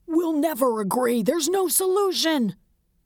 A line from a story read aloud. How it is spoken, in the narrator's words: Barely able to think, shouted